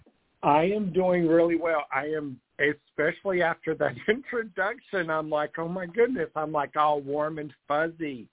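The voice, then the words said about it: Regional accent, not from Brooklyn. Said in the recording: “we can tell by your accent that you don't come from Brooklyn”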